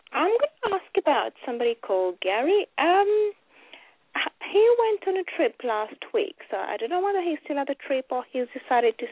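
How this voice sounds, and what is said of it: English accent. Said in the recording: “We love the English accent.”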